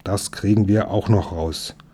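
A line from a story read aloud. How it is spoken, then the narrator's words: Growled. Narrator (German): knurrte der Wachtmeister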